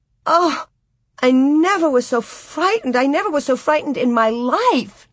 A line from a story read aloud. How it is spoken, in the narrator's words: Nellie chattered and gasped